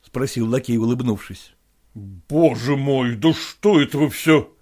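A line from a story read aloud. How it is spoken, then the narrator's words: Muttered. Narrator (Russian): пробормотал он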